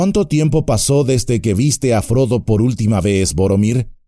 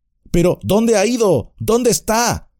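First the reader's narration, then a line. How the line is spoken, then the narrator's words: Shouting. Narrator (Spanish): gritó Pipín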